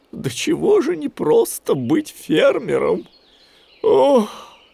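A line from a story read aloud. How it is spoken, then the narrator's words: Sighing. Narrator (Russian): вздохнул Гуфи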